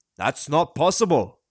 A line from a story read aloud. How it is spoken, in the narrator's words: his father said gruffly